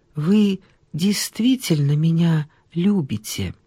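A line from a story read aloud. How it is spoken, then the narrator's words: Asked quietly. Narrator (Russian): спросила тихо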